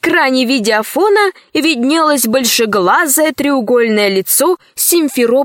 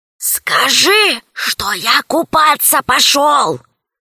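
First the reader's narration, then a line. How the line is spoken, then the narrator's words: Hissing. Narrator (Russian): зашипел Аркаша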